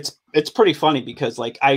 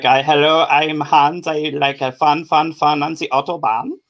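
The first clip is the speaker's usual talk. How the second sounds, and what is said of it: Bad put-on German accent. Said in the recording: “I can't do Irish or Scottish accents, but I can do a German one... it's awful”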